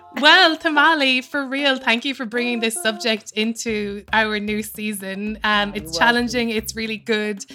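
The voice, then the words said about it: Irish accent. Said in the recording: “your annoying voice, coming in, you know, with your Irish accent.”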